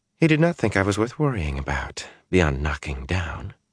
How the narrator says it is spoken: she whispered

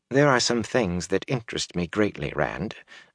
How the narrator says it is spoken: Varen said quietly

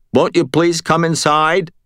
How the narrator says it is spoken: Josh … said, up toward the top of the stairs

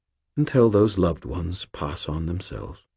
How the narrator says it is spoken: Sir Stuart said very softly

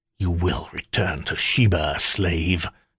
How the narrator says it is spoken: Kaba snarled

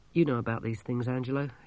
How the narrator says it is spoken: said weakly

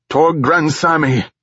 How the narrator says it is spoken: Gatorik shouted

